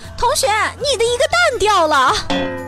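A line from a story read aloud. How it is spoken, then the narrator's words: Woman yelling at top voice. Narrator (Chinese): 女服务员扯着嗓子喊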